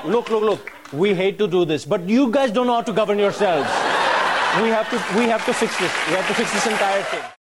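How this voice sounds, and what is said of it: Decent put-on Indian accent. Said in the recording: “that Indian accent wasn't too shabby either”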